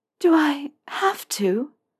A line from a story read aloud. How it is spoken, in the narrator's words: Narcissa asked weakly